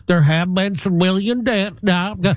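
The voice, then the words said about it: Put-on Southern American accent. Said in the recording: “I use my southern accent to make me sound like more like, just like Brian Harpo. I try to talk like this to make me sound more real.”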